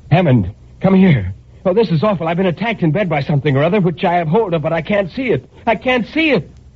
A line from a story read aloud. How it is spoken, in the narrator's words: I shouted to him